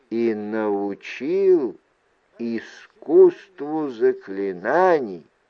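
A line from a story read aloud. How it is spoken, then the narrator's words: Slow and deliberate. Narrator (Russian): медленно произнес Сухай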